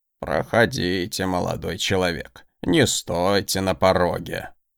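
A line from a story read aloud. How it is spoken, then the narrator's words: Creaky old voice. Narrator (Russian): проскрипел старческий голос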